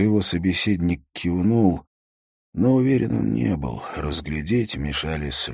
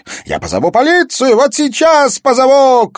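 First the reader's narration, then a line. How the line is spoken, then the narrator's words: Shouting. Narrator (Russian): крикнула Тая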